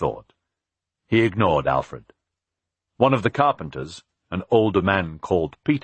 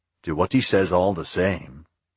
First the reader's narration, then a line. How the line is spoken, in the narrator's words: Peter said in a reasonable tone